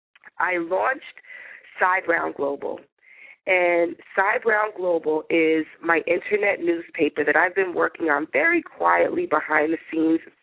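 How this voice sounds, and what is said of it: Raspy, unwell-sounding voice. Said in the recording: “I probably sound very raspy and not very well”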